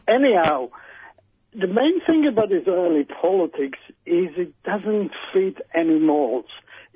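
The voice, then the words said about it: Israeli accent. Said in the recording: “as you can tell by my accent, I was actually born there and lived there for the first 16 years of my life”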